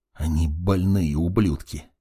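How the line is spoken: Whispered repetition. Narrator (Russian): еще раз повторил шепотом маг

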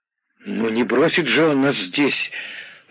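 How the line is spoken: Uncertain reply. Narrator (Russian): неуверенно отозвался Борис Веселовский

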